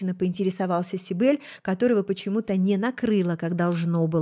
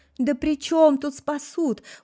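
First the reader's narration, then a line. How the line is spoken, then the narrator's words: Openly sobbing. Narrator (Russian): уже откровенно разрыдалась я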